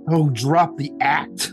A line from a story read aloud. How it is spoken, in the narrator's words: snapped Dorian